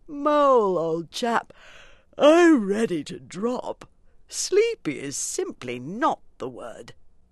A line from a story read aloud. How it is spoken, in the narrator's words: the Rat, with a tremendous yawn, said